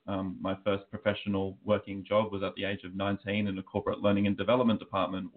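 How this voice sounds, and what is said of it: Australian accent. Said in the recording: “as you can probably tell by my accent, I am Australian”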